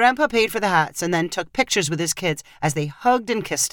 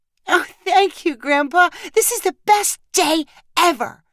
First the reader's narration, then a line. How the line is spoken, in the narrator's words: Sadie cried